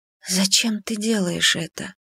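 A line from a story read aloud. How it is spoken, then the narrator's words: Barely audible question. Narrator (Russian): спросила я едва слышно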